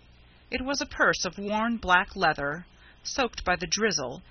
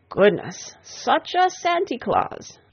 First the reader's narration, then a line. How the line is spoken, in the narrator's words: she exclaimed with a final sigh of pleasure